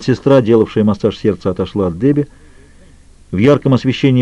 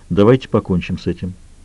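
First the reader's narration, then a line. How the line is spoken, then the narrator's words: Quiet. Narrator (Russian): тихо произнес он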